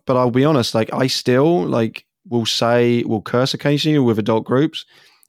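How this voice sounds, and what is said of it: English accent. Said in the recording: “my accent ... oh, you're from England ... they'll think I'm English.”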